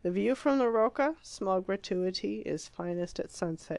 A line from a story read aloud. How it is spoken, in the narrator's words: he murmured, more to himself than to her